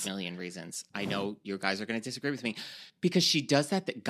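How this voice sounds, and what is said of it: New York accent. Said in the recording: “my like disgusting New York accent ... how gross my accent is”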